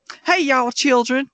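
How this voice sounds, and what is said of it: Over-the-top put-on Southern accent. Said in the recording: “just did this over the top ... my mom doesn't have a southern accent, but I just gave her a southern accent”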